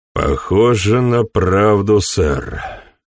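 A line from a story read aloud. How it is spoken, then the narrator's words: Grumbling. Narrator (Russian): проворчал Поттер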